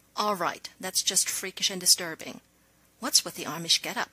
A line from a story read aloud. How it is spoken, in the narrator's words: he asked, keeping his voice low